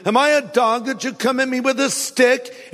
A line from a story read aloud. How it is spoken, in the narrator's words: Sneering in contempt at the ruddy-faced boy, he roared at David